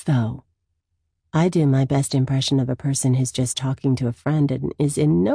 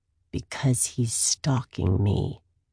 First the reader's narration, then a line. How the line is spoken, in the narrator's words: I grumble